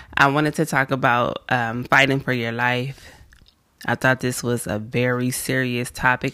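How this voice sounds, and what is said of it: Raspy just-woke-up voice. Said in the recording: “I sound a little raspy ... I just woke up”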